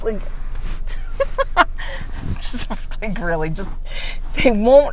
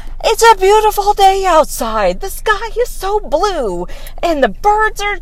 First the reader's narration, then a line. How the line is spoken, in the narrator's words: just start screaming